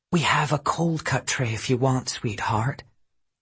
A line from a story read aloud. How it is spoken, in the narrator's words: whispered to me